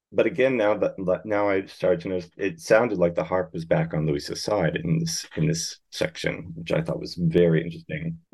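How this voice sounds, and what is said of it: American accent. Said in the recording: “haven't lost my American accent”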